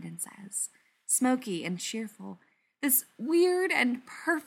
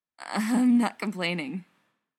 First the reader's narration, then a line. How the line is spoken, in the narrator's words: Spencer moans, hoarse with want